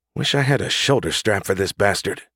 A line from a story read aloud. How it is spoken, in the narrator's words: she muttered under her breath